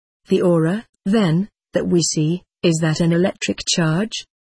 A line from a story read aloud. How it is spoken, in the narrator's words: I asked